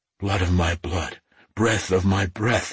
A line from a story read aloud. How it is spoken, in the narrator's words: he rasped, his heart thudding against his ribs